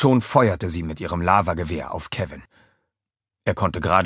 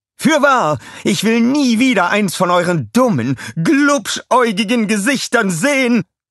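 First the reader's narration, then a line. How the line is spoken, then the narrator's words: Shouting. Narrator (German): schrie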